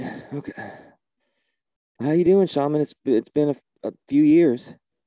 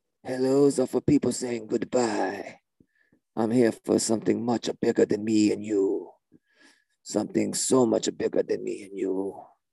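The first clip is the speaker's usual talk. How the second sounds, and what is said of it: Character voice with put-on accent. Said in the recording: “I don't think in 2022 you should be doing my accent like this ... You should not be talking like that in 2022. But that is, in fact, your voice.”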